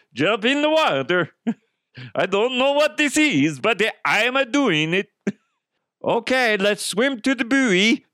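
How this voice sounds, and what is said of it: Poor fake German accent. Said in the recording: “German swim instructor ... that's a shitty fucking accent.”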